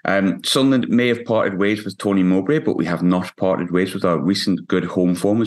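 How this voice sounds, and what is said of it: Hoarse, worn-out voice. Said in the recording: “My voice is a little bit shot from shouting at linesmen ... my voice is absolutely knackered”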